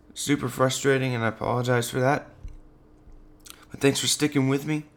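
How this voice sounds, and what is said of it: Strained, failing voice. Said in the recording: “As you can hear, my voice is starting to go out again.”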